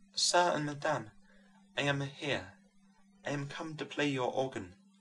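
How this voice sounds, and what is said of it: Soft Italian accent. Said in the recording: “saying abruptly with a soft Italian accent”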